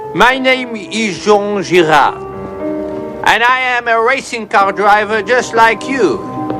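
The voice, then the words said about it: Thick French accent. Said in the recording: “you sound like a dog with peanut butter on the roof of your mouth ... I think what you are hearing is my accent. I am French.”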